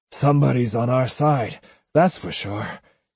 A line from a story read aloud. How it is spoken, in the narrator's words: he said huskily